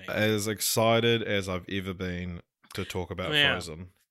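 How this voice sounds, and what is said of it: Deadpan, sarcastic-sounding delivery. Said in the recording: “I hope you weren't being sarcastic”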